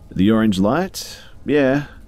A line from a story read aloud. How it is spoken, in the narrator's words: all he said in an extremely calm voice was